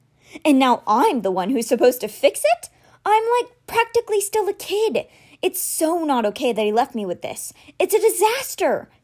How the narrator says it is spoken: cried

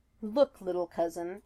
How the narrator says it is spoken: he laughed

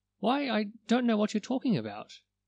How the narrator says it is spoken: Betsy Butterfly faltered

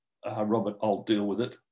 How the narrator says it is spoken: to go quietly

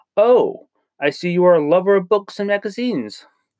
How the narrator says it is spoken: exclaimed with enthusiasm

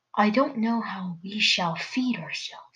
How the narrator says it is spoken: he sighed

